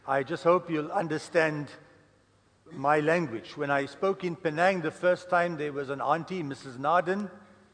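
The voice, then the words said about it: Indian-accented English. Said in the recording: “I speak English with a curry accent”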